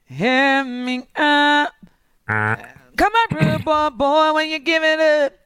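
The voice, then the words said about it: Imitates a singer's voice. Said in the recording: “do my Rihanna impression”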